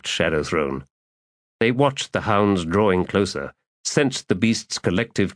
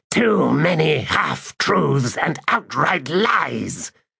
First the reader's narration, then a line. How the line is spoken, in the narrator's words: Shadow Throne snarled every word of that statement